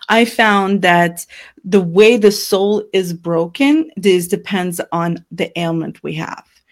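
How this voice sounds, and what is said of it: Noticeable accent. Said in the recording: “my accent's coming out”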